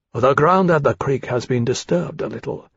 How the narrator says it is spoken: Tharkay said to Lawrence quietly

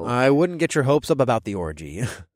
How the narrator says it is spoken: I chuckled

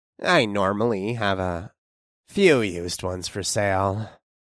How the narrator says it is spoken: Nathan sighed

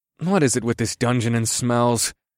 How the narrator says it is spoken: groaned to myself

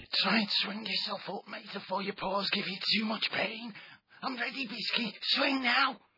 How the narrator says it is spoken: Double muttered urgently

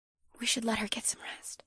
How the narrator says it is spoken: Janine whispered

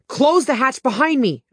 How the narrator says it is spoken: I yelled

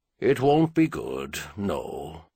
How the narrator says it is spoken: Clinton said much more calmly than Trenaire would have expected

